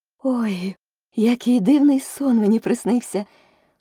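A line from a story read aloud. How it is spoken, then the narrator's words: Exclamation. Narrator (Ukrainian): вигукнула Аліса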